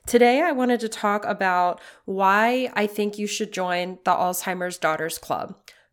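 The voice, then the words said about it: Raspy voice from a cold. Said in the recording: “I sound a little raspy. I am just getting over yet another cold ... I am a little raspy today”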